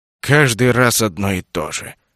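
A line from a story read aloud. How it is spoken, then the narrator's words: Grumbled. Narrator (Russian): проворчал Гендерсон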